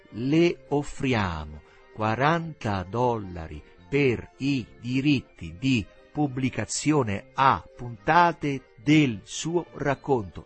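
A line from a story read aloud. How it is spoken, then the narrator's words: Slow deliberate speech. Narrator (Italian): Teresa pronunciava lentamente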